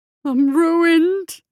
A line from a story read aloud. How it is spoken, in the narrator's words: Bill wailed